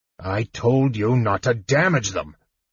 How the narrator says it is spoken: growled Caramon

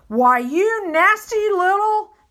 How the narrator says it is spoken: the trampo yelled

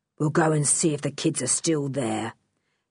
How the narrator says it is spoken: said Tiger Dan grimly

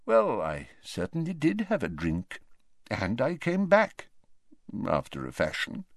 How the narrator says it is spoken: mumbled Dumbledore

